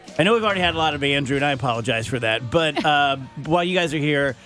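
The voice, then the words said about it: Hoarse, strained voice. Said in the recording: “Oh God, I'm I'm done. I'm gonna be useless. My my voice is like roached from laughing.”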